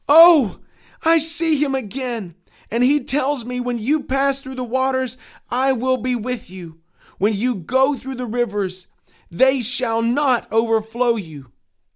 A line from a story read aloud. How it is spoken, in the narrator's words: Christian cried out with a loud voice